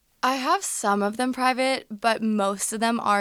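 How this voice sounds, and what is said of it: Usual voice. Nothing is said of it.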